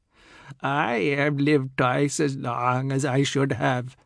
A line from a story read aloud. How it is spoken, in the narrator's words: the oldest one said, his voice crackling like an old radio because decades were rubbing up against each other around his vocal cords